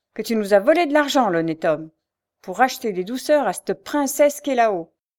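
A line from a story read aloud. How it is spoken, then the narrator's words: Exclaiming. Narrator (French): s'écria-t-elle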